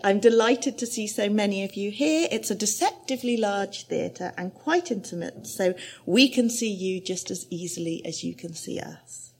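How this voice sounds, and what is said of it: Plummy English accent. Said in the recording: “In a plummy English accent ... A little bit like this.”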